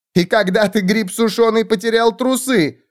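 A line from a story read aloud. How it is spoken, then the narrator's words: Laughing. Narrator (Russian): хохотала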